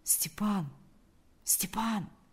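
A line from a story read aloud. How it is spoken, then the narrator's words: Quiet call. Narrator (Russian): позвал он тихо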